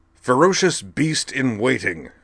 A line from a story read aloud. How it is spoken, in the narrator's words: he read, loudly and bombastically, as befit a large headline